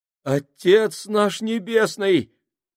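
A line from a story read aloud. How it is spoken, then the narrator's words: Exclamation. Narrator (Russian): воскликнул Фабрини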